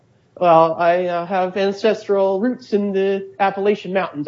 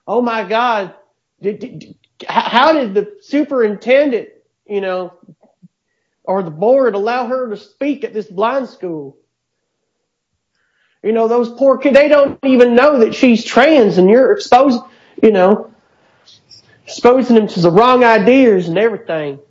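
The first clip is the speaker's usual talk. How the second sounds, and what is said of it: Put-on Appalachian Southern accent. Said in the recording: “You do that accent way too well ... I did sound Appalachian, right? ... Yes, you did. You basically sounded Mountain South.”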